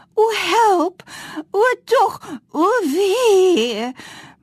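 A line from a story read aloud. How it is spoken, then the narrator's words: Screaming. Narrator (Afrikaans): hoor skree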